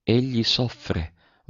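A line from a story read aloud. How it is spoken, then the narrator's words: Murmured. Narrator (Italian): mormorò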